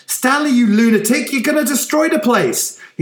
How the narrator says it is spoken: shouted

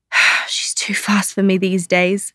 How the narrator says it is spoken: said, wheezing a little

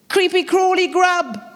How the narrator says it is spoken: she exclaimed

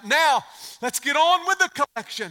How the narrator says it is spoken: A man shouted out

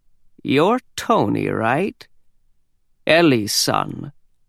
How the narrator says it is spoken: in a croaky voice, he said

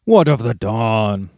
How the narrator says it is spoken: they jeered

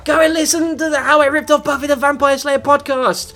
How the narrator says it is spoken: shout

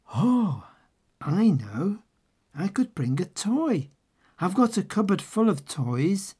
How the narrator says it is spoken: said Babushka sadly

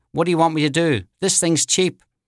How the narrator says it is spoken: she threw her hands in the air and yelled

